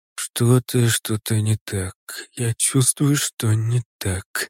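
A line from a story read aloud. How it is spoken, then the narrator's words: Quiet lamenting. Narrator (Russian): тихо запричитал Хурики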